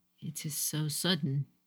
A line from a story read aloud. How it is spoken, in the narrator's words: Satoshi murmured